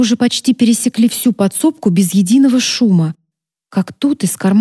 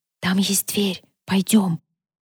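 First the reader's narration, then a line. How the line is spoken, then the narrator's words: Whisper. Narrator (Russian): Я прошептала Сати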